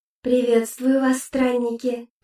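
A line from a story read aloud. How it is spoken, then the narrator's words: Melodic echoing double voice. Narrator (Russian): произнесла женщина мелодичным голосом, который звучал с небольшим эхом, будто был каким-то двойным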